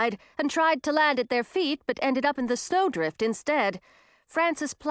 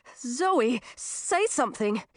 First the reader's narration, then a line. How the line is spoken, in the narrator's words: said, sounding desperate